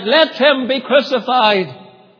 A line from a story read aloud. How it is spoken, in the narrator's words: they all cried out